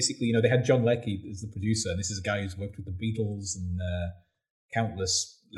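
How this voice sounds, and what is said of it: Usual voice. Nothing is said of it.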